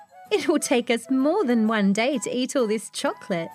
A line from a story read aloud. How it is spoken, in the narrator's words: laughed Harry Bunny